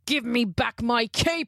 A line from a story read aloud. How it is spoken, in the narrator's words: He roared